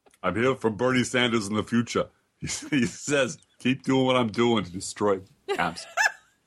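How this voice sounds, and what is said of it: Bad Arnold Schwarzenegger impression. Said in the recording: “I do a terrible Arnold impersonation. ... I thought you were doing Bernie Sanders”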